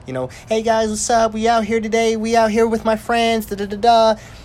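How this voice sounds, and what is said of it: Exaggerated vlogger acting voice. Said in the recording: “putting on your acting voice.”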